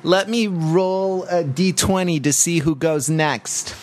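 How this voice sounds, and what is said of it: Stern parent character voice. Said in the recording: “doing the parent voice”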